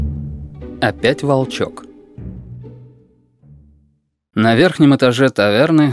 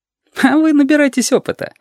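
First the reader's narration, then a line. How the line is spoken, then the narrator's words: Frivolous giggle. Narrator (Russian): легкомысленно хихикнул Сашка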